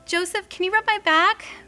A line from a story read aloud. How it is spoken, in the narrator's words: Mary pleaded